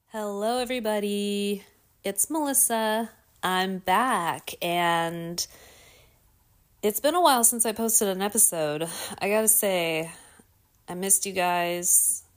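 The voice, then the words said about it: Slightly raspy, hoarse voice. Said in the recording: “I don't know if you can still hear it in my voice a little bit... I feel like my voice is still a little bit weird and like raspy.”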